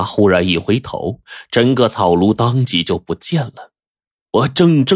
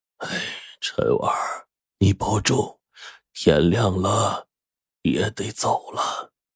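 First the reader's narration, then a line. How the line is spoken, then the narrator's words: Sighing. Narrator (Chinese): 叹了口气说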